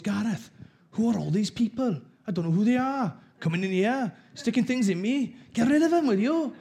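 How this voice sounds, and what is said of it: Thick Welsh accent, elderly woman's voice. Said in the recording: “my nan had a really thick Welsh accent ... I've got a good Welsh accent.”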